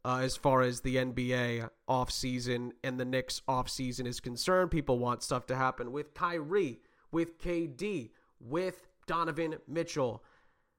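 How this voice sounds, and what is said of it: Hoarse, worn-out voice. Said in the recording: “My voice is a little shot.”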